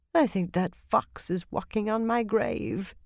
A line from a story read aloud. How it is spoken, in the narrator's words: Yukiri murmured